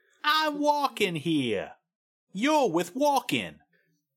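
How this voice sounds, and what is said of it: Movie-style New York accent. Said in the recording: “whatever accent New Yorkers always have in movies”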